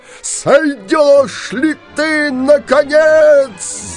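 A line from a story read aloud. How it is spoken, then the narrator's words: Yelled. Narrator (Russian): завопил синяя борода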